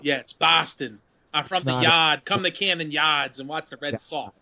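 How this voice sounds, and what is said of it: Put-on Boston accent. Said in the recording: “Can you do a good Boston accent?”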